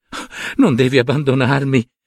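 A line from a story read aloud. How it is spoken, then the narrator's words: Sobbing. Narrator (Italian): singhiozzava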